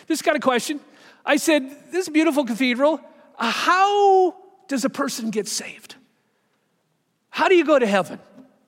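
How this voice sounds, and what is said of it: American accent. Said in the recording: “you can tell from my accent, I'm from America”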